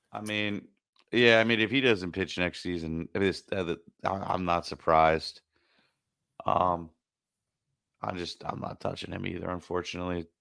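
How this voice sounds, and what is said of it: Upset, dejected tone of voice. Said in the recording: “As you can hear in my voice, I'm pretty upset about it.”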